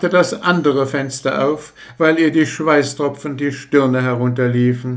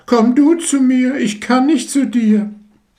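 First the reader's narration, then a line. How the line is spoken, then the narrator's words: Call. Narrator (German): Sie aber rief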